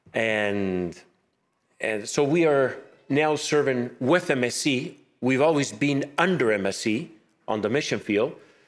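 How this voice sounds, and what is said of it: Spanish accent in English. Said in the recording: “My accent is not French, it's Spanish.”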